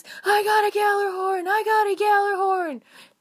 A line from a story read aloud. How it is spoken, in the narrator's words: In a much higher pitched voice, he was screaming